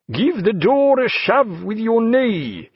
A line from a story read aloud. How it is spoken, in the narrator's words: he called out in his polished way